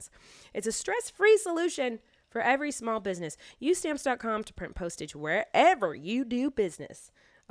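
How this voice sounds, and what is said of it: Put-on Southern US accent. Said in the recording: “A southern accent all of a sudden?”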